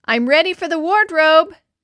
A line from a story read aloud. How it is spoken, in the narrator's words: shouted